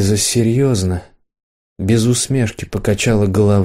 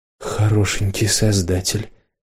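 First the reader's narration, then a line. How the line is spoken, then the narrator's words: Barely audible mutter. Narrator (Russian): еле слышно пробормотала Ирена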